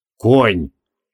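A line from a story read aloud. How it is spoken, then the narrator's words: Gloomy reply. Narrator (Russian): мрачно ответил Креол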